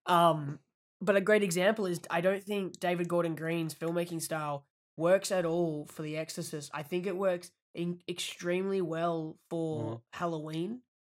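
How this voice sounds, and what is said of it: Hoarse, fading voice. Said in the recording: “I'm slowly losing my voice. ... By the end of the podcast, I'm not going to have a voice.”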